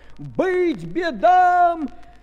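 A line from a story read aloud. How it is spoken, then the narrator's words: Crowd of peasants shouting. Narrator (Russian): крестьяне и миряне, православные христиане, закричали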